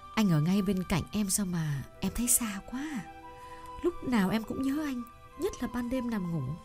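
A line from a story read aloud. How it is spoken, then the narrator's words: Tender whisper. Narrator (Vietnamese): Trâm thì thầm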